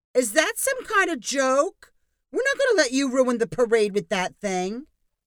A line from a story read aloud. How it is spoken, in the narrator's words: A woman yelled